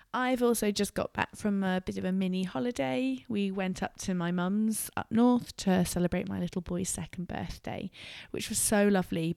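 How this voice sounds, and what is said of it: Husky voice from a cold. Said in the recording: “As you might detect from my voice, the endless run of colds continues here at our house ... My voice is still husky”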